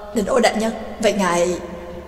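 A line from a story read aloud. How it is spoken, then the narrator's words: Astonished stammering. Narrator (Vietnamese): Ba Trác kinh ngạc lắp bắp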